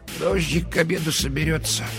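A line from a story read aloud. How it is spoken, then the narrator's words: Mumbling. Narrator (Russian): пробормотала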